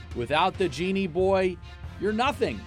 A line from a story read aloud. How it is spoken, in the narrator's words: he shouted